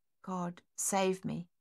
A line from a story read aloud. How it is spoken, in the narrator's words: she whispered